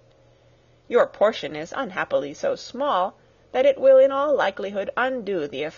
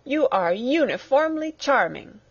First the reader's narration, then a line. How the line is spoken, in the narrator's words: cried he, with an air of awkward gallantry